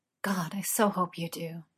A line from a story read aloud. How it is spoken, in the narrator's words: Merlin muttered